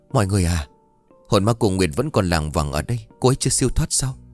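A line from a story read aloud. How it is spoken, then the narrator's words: Trembling, frightened. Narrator (Vietnamese): Chỉ riêng Dương thì mặt cô ấy tái mét không còn giọt máu, và nói trong sự run rẩy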